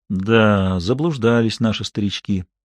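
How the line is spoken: Sad, quiet, heartfelt. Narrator (Russian): с грустью в голосе, тихо, но проникновенно произнес

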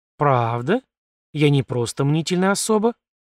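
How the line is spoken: Soft caressing voice. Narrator (Russian): Регина говорила мягко, словно прикасалась каждым звуком к моей коже

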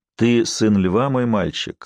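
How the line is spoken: Gentle, old man. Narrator (Russian): ласково сказал дедушка

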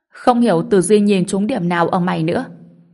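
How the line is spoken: Suppressed laughter, quiet. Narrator (Vietnamese): Vì sợ quấy rầy ông cụ Từ nên Kim Vĩnh Lợi không dám cười to, anh ta nói

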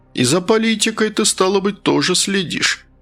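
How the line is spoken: Chuckling. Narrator (Russian): Мерлин хохотнул

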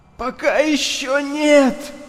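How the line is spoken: Hoarse wheeze. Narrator (Russian): прохрипел

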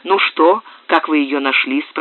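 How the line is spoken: Plain. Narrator (Russian): спросил маркиз

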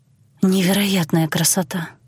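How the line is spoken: Breathless awe. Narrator (Russian): выдохнула я

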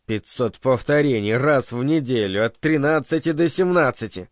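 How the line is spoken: Glum mutter. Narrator (Russian): уныло пробурчал Бернард себе под нос

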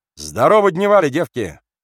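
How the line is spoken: Strong ringing shout. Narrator (Russian): крикнул сильным, заливистым голосом

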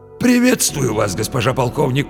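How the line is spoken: Wheezy rasp. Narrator (Russian): просипел

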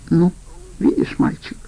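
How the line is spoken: Quiet. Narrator (Russian): тихо сказала Аида

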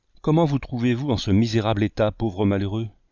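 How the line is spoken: Plain question. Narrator (French): demanda

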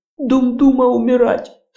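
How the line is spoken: Sobbing old woman. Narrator (Russian): Старуха всхлипнула

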